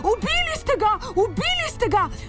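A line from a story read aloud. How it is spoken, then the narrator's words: Daring shout, old hen. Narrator (Slovenian): Si je drznila zavpiti stara kokoš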